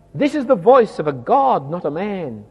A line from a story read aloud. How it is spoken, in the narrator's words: And they shouted